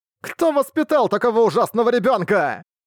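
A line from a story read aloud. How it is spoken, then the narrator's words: Monster screaming in rage. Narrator (Russian): Завопил монстр, наконец впадая в ярость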